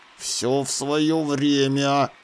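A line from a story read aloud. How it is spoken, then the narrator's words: Hissed reply. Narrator (Russian): прошипел в ответ верховный жрец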